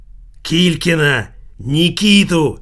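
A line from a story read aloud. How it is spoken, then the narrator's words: Nasty angry voice. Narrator (Russian): противным злым голосом произнесла тетка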